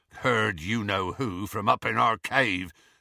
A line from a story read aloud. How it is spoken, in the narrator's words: said Hagrid grimly